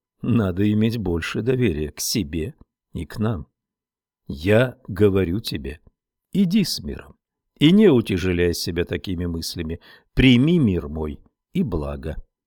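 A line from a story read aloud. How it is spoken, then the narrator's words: Gentle teacher. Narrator (Russian): Учитель мягко сказал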